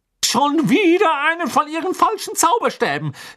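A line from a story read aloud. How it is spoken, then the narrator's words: Calling out. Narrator (German): rief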